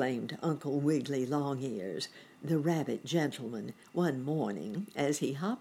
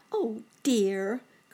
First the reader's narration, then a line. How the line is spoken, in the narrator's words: cried Sammy